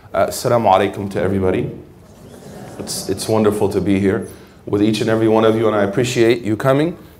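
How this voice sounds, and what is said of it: Rough, strained throat voice. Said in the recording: “I actually have a tornado in my throat ... forgive my voice”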